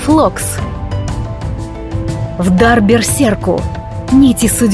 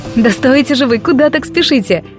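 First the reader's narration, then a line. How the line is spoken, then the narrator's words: Laughing. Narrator (Russian): Засмеялась я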